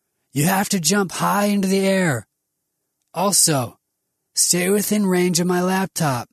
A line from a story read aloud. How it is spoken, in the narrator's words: told too loudly